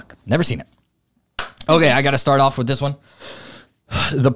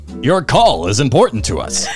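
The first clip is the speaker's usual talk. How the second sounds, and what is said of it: Imitates a hold-music recording voice. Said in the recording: “Hold music. Here's my impression.”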